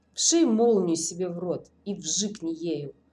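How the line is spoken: Weary request. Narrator (Russian): устало попросил Тимур

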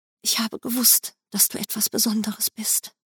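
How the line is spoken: Breathy tender whisper. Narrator (German): hauchte die junge Mutter ihrem Kind zu, gerade noch laut genug, dass ich es hören konnte

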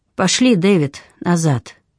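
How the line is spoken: Tired. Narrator (Russian): Сьюзан устало проговорила

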